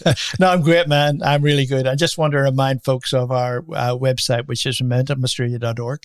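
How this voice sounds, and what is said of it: Speaks with an unusual accent. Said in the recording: “strange accent”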